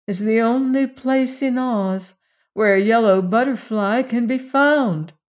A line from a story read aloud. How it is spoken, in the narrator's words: said Ojo sadly